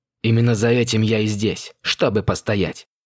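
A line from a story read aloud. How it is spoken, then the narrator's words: Growl. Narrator (Russian): прорычал он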